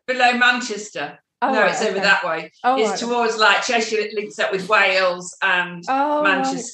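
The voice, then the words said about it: Mixed Cheshire and Yorkshire English accent. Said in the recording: “I've got a funny accent because I've picked up everybody's... they've got Yorkshire in there”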